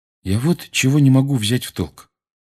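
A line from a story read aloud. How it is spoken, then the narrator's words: Unsteady, shaky voice. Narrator (Russian): сказал Гарри нетвердым голосом, так дрожали руки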